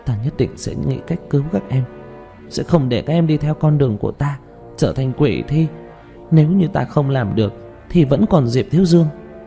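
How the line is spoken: Murmuring. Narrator (Vietnamese): Nàng lẩm bẩm

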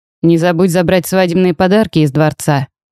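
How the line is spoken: Reminding. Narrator (Russian): напомнил кузену Грегори

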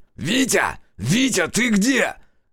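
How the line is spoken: Loud yelling. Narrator (Russian): Заорал Решетов

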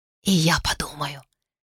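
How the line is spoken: Barely audible whisper. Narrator (Russian): почти неслышно шепнула

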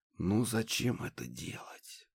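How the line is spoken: Barely audible whisper. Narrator (Russian): еле слышно прошептал Владимир

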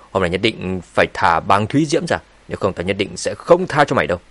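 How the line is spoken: Threatening. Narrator (Vietnamese): Thạch Bằng cũng đứng dậy theo và nói với giọng đầy uy hiếp

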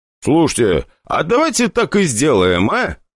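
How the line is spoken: Nearly laughing. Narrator (Russian): проговорил я чуть ли не хохоча

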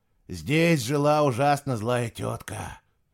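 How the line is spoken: Sigh. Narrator (Russian): вздохнул Пец

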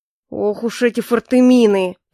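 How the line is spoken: General's growl. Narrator (Russian): Прорычал генерал

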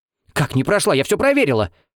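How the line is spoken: Shrill shriek. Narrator (Russian): Взвизгнула Лариса Прохоровна

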